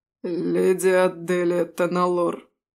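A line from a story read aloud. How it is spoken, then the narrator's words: Strangely hoarse voice. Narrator (Russian): странно хриплым голосом произнес один из полицейских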